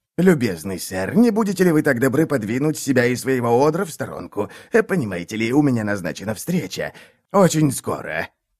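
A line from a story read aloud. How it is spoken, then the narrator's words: Hissing. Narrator (Russian): Тут он зашипел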